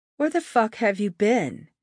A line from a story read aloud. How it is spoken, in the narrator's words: snapped